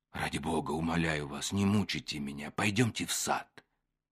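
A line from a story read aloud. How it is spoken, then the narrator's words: Agitated whisper. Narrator (Russian): Старцев сказал Екатерине Ивановне шепотом, сильно волнуясь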